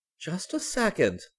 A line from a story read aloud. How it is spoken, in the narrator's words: Gran cried